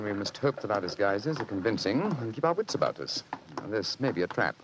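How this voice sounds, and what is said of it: Usual voice. Nothing is said of it.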